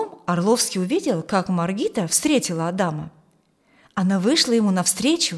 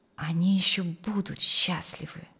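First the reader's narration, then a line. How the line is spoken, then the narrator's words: Joyful old man whispering. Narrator (Russian): шептал старик, радуясь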